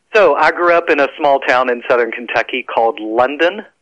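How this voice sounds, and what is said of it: Slow Southern US drawl. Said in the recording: “when I opened my mouth, it dripped like molasses. And that's how he explained my accent.”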